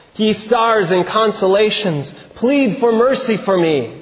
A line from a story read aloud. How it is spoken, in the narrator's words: he exclaimed